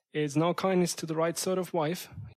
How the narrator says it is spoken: he said

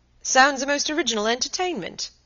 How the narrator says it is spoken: he exclaimed, and laughed in his pleasant way

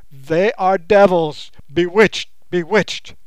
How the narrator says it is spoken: the man stared aghast, he yelled out at the top of his voice

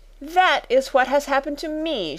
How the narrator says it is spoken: she cried

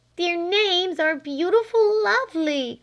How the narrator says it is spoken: cried Flame

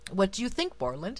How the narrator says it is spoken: asked the prince anxiously

